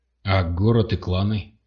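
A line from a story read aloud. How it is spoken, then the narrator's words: Plain. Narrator (Russian): спросил сержант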